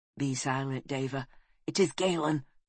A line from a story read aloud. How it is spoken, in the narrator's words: he hissed